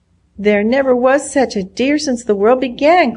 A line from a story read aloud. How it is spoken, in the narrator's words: cried Nancy joyously